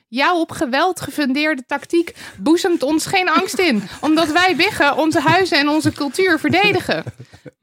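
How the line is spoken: Shouted back. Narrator (Dutch): De biggetjes schreeuwden terug

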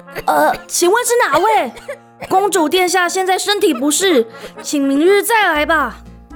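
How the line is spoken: Loud calling. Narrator (Chinese): 卢娜只好高声喊

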